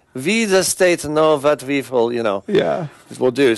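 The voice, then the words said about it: World War II Nazi movie accent. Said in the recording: “The accent, it just sounds like a World War II Nazi movie.”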